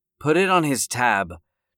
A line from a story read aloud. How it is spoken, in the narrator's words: Jill slurred